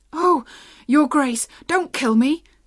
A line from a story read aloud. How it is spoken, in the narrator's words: cried the boy